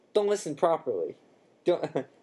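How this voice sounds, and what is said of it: Character voice slipping into New York accent. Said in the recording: “Oh, that turned New York, didn't it? ... Okay, I totally lost that accent”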